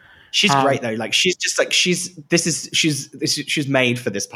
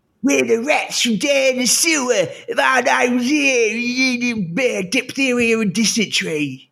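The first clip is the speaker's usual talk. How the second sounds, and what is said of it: Imitates another person's voice. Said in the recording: “I really have to contort my face to do that impression of Bimini”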